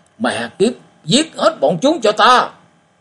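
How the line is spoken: Sudden angry hiss. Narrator (Vietnamese): Đột nhiên cung ma bật lên tiếng giận dữ, rít lên nói

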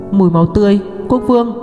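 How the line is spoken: Surprised cry. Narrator (Vietnamese): Hứa Mộ Triều kêu lên kinh ngạc

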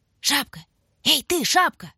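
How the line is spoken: Hissing whisper. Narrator (Russian): свистнул шепоток

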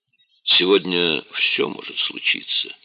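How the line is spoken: Quiet. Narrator (Russian): тихо сказал он

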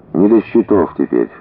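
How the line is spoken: Soft. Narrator (Russian): мягко сказал Генка

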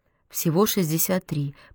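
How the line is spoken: Muttering. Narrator (Russian): пробормотала Марсём

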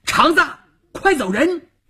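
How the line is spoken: Shouted. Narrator (Chinese): 邵月这么一喊

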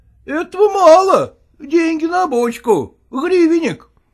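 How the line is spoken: Clerk shouting. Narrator (Russian): крикнул писарь

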